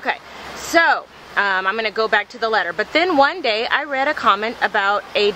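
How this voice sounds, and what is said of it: Usual voice. Nothing is said of it.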